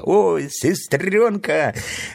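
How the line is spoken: Joyful exclamation. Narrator (Russian): радостно воскликнул Фредди

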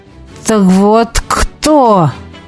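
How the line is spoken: Hiss. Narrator (Russian): прошипел он

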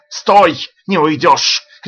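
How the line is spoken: Shouting. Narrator (Russian): кричал он

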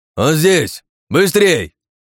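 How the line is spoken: Yelling. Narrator (Russian): орал Сэм

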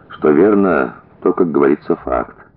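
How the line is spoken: Sighing. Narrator (Russian): в свою очередь вздохнул Горохов

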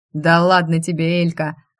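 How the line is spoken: Chuckling. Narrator (Russian): хохотнул Эдир

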